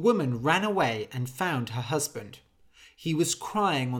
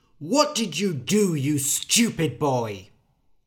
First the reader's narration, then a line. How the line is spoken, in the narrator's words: The father said angrily